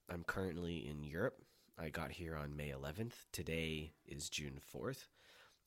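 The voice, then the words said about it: Sick, slightly impaired voice. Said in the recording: “you may hear that my voice is not perfect because I have been sick”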